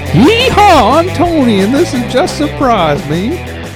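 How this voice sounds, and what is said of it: Bad fake Southern accent. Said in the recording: “That was the worst fucking southern accent I've ever heard in my life.”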